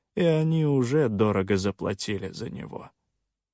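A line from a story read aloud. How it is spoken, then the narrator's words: Calm reply. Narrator (Russian): спокойно отозвался Соленый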